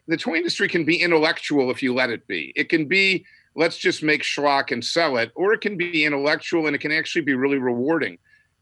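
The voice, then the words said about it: Excited, enthusiastic voice. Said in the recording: “I'm still so excited about it, you can probably hear it in my voice”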